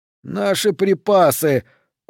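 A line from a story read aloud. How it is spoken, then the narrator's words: Moaned. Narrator (Russian): простонал кто-то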